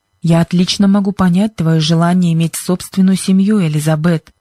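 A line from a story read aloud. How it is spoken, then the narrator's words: Plain. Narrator (Russian): ответил мистер Джонсон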